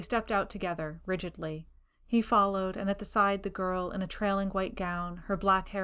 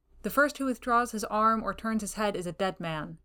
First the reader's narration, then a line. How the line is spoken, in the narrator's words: he said